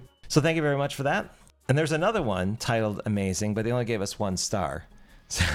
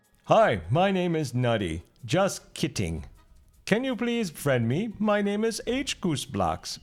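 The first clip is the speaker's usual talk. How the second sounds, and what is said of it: Imitates a cartoon character's voice. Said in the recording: “can you read in a Homer Simpson accent? ... Read like Homer Simpson.”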